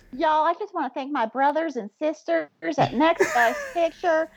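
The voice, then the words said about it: Put-on Southern accent. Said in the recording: “All of a sudden, I have this southern accent that I've decided to discover.”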